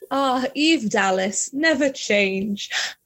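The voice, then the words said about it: Put-on British accent. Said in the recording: “I always just like default to like a British accent or something.”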